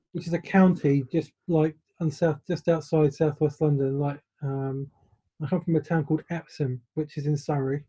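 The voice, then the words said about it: English accent, southwest London area. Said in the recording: “what part of England are you originally from? ... I know London's a very broad term ... so I'm trying to place the accent.”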